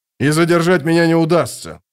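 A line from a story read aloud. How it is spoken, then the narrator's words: Barking. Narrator (Russian): рявкнул полковник Башар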